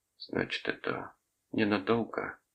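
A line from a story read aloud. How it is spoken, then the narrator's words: Muttered. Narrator (Russian): пробормотала она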